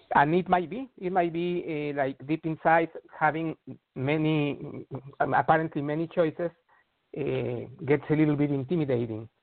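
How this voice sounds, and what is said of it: Non-American accent. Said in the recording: “You don't sound American to me. ... You do not sound American.”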